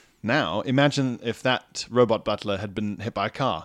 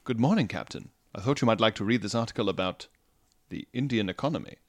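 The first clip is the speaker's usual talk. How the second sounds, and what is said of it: Sophisticated British butler robot voice. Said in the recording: “The sophisticated British accent ... Butler-esque ... Quite like a butler”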